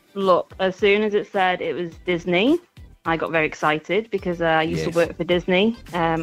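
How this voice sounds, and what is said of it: English accent from near Manchester. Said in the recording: “you sound like you're from somewhere near where we're broadcasting from at the moment. Are you English? ... from near Manchester. ... have you got a fun accent as well? ... I have, also from the same area.”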